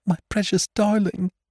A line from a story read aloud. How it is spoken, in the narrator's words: wailed the mother